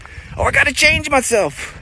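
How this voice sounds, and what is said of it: Impersonated character voice. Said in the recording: “impersonations”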